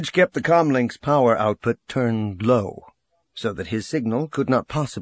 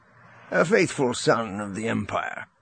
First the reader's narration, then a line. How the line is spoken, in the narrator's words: Rogris said, his tone jovial